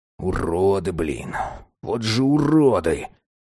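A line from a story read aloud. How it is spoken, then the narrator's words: Muttered. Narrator (Russian): пробормотал Кулагин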